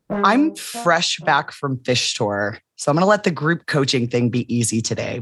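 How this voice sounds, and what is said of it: Lowered, deeper worn voice. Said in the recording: “my voice was a little off ... I've lost a couple of octaves, but it's not because I'm sick ... this is happy voice droppage, not sick voice droppage ... sing-along voice droppage”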